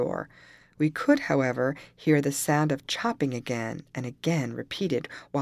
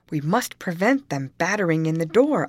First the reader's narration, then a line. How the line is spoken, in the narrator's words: exclaimed